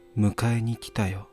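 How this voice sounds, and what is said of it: Whispering close to the ear. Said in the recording (Japanese): “耳元でささやく声がする。”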